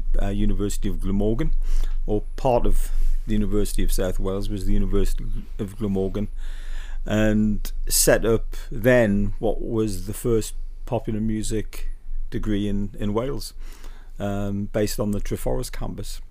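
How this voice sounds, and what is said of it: Newcastle (Geordie) English accent. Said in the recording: “I'm noticing with the accent ... I don't think you're from this round these parts ... from the Newcastle, yeah.”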